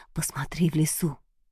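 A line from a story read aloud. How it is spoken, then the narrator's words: Inner whisper. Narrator (Russian): будто кто шепнул или подсказал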